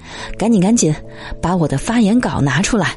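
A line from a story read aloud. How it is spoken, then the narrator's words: Muttering to self. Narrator (Chinese): 喃喃自语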